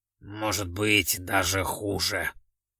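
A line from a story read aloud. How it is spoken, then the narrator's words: Grumbling. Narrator (Russian): буркнул он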